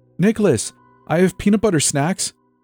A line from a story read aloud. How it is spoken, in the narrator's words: she squeaked